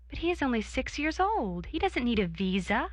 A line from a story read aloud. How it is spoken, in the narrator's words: I gasped